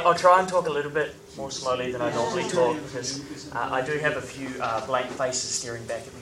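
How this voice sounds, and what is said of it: New Zealand accent. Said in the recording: “can you understand my accent? ... So I grew up in New Zealand. I now live in New York.”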